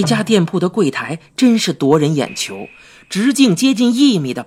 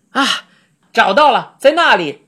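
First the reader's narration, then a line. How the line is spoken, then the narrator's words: Loud shout. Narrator (Chinese): 他大声喊道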